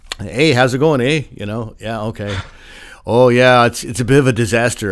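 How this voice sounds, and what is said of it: Put-on Canadian accent. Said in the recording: “having dealt with the Canadian trademark office ... I think I got the accent right too”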